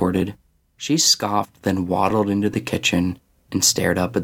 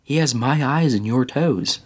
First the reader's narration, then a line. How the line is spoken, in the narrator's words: said